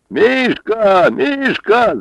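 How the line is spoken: Yelled. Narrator (Russian): заорал Петр Житов

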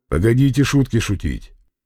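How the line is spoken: Calm warning. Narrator (Russian): предупредил Фома и сделал это так спокойно

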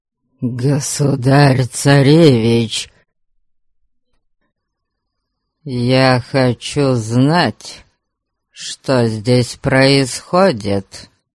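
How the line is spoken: Clipped, unchildlike tone. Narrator (Russian): Процедил Алексей тоном, которого никак нельзя было ждать от семилетнего мальчишки

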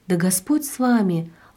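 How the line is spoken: Gentle teacher. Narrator (Russian): ласково отвечала учительница

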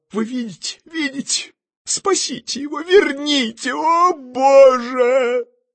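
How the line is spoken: Sobbing cry. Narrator (Russian): Красавица рыдая вскричала

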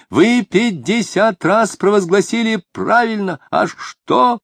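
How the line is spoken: Near-hysterical shouting. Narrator (Russian): Носатый человек во фраке почти истерически кричал

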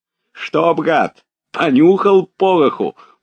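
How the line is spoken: Shouted close to ear. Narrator (Russian): прокричал ему над ухом голос Васьки Денисова

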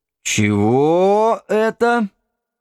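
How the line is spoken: Ominous drawl. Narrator (Russian): зловеще протянул он

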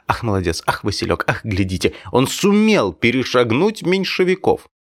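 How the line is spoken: Muttering. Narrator (Russian): Лида, бормоча

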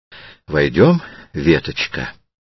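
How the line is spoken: Quiet question. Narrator (Russian): тихо спросила Елена

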